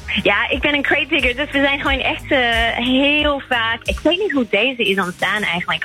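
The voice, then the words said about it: English accent speaking Dutch. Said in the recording (Dutch): “Ik hoor bij jou een Engels accent.”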